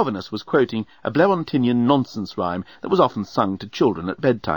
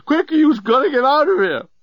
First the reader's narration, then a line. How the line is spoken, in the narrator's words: he screamed